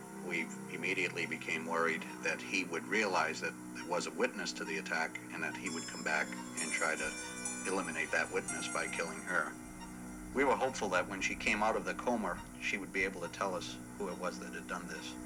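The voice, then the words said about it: Regional accent, says comer for coma. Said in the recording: “do you see where I'm coming from with the accent? Did you hear ... say comer instead of coma?”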